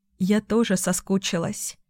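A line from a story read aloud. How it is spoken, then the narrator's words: Tender whisper. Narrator (Russian): шепнула нежно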